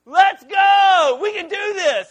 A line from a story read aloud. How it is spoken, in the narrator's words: he begins to scream in our ear